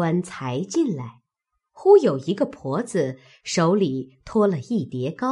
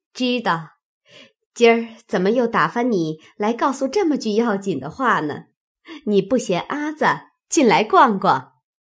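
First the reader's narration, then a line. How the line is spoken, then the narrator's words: Laughing. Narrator (Chinese): 柳家的笑道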